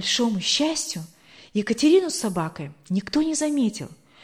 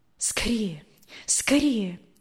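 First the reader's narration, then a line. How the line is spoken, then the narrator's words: Quiet whisper. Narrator (Russian): тихо шептала Екатерина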